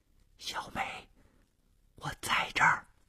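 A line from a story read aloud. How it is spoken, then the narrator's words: Soft reply. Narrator (Chinese): 黑暗中传出了同样轻声的回答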